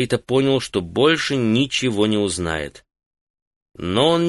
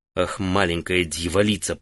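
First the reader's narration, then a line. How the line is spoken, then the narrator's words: Muttered. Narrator (Russian): пробормотал он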